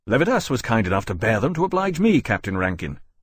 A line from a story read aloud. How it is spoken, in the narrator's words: Lawrence said, speaking sharply